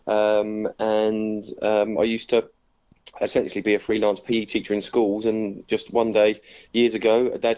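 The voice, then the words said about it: North London English accent. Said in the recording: “You might tell from the accent, I'm not originally from the southwest. I moved down in 2003 from North London, sort of Stevenage, Hertfordshire type way.”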